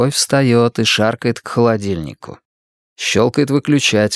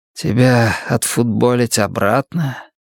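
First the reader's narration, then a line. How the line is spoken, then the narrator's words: Tired question. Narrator (Russian): устало спрашивает он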